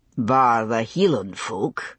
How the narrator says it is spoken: he said, very dryly

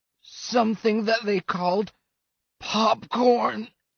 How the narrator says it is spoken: groaned Atil

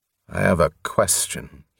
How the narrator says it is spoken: he said stiffly

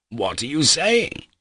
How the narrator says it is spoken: I cried

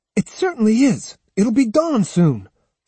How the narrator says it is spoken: snapped Otsu with deliberate tartness

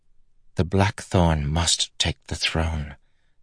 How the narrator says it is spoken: Danlin said softly

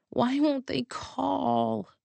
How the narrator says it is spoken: I mumbled into my pillow

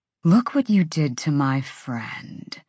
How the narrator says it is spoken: Pollux said in that dead, soulless voice

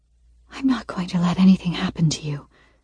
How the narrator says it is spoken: I whisper, my voice ethereal

